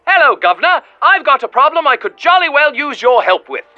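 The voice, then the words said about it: Put-on English accent. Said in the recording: “a caller from across the pond. Though I can't quite place where in England your accent is from.”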